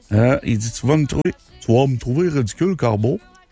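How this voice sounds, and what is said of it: Imitates another person's voice. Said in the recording (French): “Faudrait que je prendrais son accent... c'est un peu comme ça qu'il parle, Robin”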